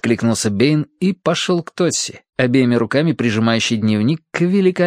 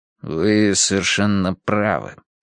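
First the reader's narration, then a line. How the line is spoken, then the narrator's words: Gloomy agreement. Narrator (Russian): согласился Бэйн мрачно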